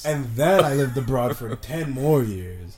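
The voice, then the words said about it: Mixed international, somewhat American accent. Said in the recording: “my accent is just, like... I guess it is kind of American... kind of a mishmash of, like, everything... you have a very international school kid accent”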